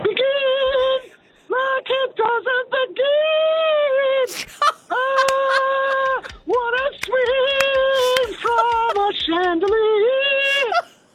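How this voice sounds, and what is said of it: Singing in falsetto. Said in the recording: “Falsetto that you're pulling out”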